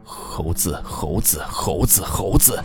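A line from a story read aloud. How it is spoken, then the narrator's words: Mumbling. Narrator (Chinese): 他似乎正在嘟囔着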